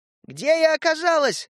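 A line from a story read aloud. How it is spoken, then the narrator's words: Ringing shout. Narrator (Russian): звонко кричала она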